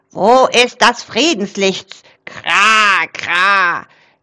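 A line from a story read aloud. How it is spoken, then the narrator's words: Excited raven croak. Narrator (German): krächzte Rabe aufgeregt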